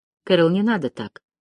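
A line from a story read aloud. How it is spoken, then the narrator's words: Sighing. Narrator (Russian): вздохнула Тесс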